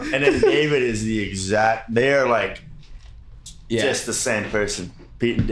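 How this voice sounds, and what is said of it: Usual voice. Nothing is said of it.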